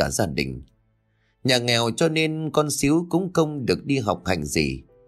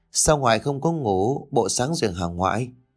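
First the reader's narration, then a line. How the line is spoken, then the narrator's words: Old trembling hoarse voice. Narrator (Vietnamese): Bà Năm, giọng của bà run run vì căn bệnh thanh quản đã lâu đời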